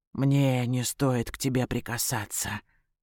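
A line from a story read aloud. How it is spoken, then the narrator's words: Mutter. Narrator (Russian): бормочет он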